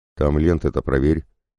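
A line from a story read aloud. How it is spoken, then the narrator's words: Grumbling fat man. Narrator (Russian): проворчал толстяк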